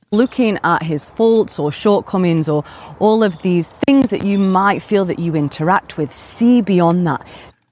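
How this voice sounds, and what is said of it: Sultry British accent. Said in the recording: “With that sultry uh, British accent”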